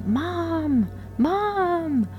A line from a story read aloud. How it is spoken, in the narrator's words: one of my children started yelling